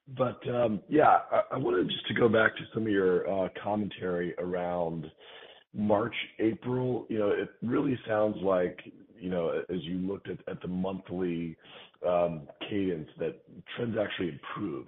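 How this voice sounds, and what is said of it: Sick, under-the-weather voice. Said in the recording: “apologize for my voice. I'm a bit under the weather.”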